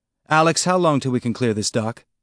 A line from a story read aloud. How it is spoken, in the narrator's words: Holden asked